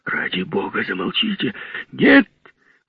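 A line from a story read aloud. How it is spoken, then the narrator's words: Loud exclamation, priest. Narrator (Russian): воскликнул громко священник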